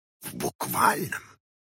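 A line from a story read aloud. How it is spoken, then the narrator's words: Old man whispering behind door. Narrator (Russian): прошептал за дверью старик Хоттабыч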